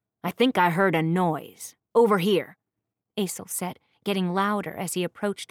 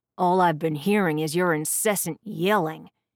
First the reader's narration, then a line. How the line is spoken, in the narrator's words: Garin growled back